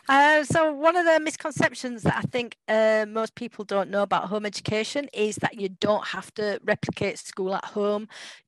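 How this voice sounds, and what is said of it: English accent. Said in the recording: “I can listen to your accent all day. It's just so awesome.”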